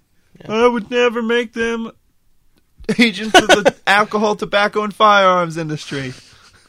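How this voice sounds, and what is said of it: Imitates another person's voice. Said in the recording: “That's my Bill Clinton impression.”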